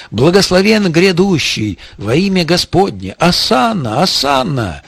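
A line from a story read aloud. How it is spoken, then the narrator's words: Crowd shouting. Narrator (Russian): кричали ему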